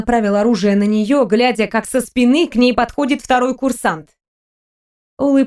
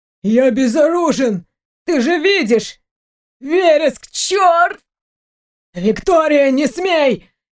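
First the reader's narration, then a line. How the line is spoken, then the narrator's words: Hoarse. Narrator (Russian): Хриплый голос Дмитрия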